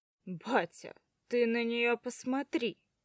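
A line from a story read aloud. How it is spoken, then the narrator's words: Chuckling. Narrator (Russian): хохоток Пашки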